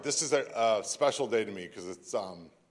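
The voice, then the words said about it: Choked-up, tearful voice. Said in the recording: “I got choked up ... I'm all choked up ... They do call me a crybaby”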